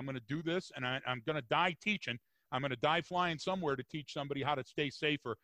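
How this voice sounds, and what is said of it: West Virginia accent. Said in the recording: “you can tell by my accent and I can tell by your accent that we're both from somewhere in West Virginia”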